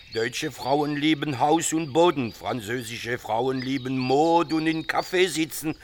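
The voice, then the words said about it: German with a foreign accent. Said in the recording (German): “Sie sprechen aber mit Akzent.”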